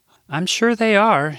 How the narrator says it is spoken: she said in her Midwest accent

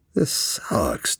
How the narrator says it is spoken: Jack sighed

